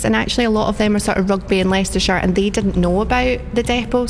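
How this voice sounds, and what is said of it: Scottish accent. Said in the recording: “your accent is not from around here ... Were you originally in Scotland? ... Yeah, so I've been down here 18 years and just couldn't get rid of the accent”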